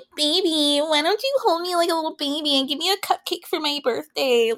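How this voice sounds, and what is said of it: Baby voice. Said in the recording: “That baby voice”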